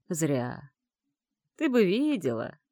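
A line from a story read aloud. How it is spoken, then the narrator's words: Chuckle. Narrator (Russian): Он хохотнул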